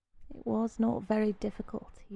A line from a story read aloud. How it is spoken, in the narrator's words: repeated softly